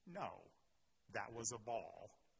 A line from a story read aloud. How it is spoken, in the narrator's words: Castro said calmly